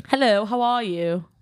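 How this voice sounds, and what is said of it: Put-on British accent. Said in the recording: “Can you do a British accent?”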